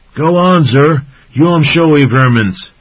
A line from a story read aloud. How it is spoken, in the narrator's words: Wugger shouted out encouragingly